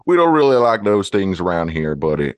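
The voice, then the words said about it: Put-on Southern accent. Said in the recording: “I might have a Southern accent”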